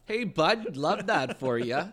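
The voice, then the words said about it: Put-on Canadian accent. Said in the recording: “a little bit more Canadianism to the dad ... he's talking Canadian.”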